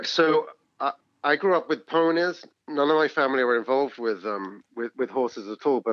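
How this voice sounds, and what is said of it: English accent. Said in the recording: “there's an English accent, so you're not from America”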